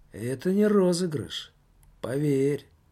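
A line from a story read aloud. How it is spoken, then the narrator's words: Serious tone. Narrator (Russian): серьезным тоном ответил паспорт тюремный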